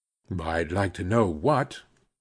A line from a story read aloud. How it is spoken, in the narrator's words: growled